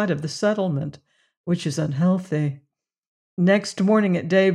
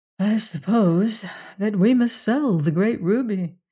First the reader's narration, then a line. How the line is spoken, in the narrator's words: she answered with a sigh